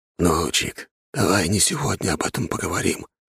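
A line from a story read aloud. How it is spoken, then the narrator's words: Whispered. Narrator (Russian): шепотом спросил он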